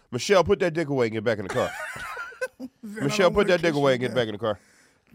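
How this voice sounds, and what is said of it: Imitates another person's voice. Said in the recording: “my impression of Vin Diesel”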